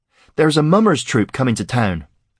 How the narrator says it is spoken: Cade exclaimed

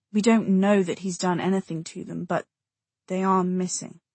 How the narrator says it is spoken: Jay said quietly

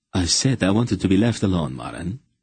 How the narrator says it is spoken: he said in a testy voice

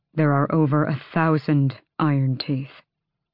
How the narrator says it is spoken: Adian said, his voice hollow in his ears

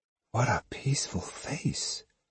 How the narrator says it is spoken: she marveled under her breath

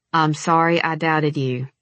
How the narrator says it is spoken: he said in the kind of monotone used by six-year-olds when forced to give an apology

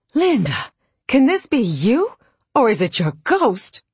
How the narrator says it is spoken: in utter astonishment and exclaimed

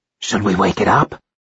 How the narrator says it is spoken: Aaron whispered

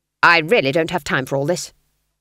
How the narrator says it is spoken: snapped Granny, trembling

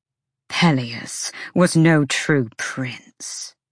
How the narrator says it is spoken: Ada spat, fangs bared

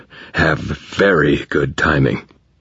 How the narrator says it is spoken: I groaned

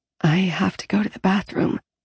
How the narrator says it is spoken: I whispered

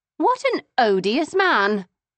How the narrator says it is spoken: I exclaimed

